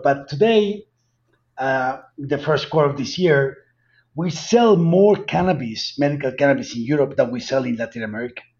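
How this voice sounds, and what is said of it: Heavy Colombian Spanish accent. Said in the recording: “a Latin American company out of Colombia with my heavy accent”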